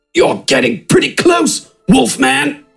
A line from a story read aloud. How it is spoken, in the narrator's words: Smidgen grunted